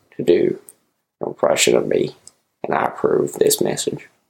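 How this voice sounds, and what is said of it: Poor Morgan Freeman impression. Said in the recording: “I'll ask Morgan Freeman to come on ... That's terrible, Morgan Freeman, right?”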